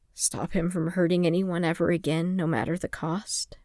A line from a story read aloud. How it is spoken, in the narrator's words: Fimor suggested quietly